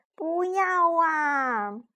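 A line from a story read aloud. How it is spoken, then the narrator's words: Shouting in unison. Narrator (Chinese): 我们齐声喊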